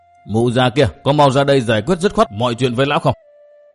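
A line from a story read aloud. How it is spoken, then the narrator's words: Loud call into house. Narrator (Vietnamese): Vân Hải Kiều Tử lớn tiếng nói vọng vào trong nhà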